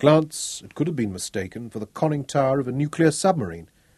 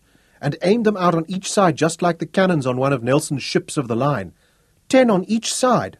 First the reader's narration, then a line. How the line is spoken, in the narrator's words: Oki moaned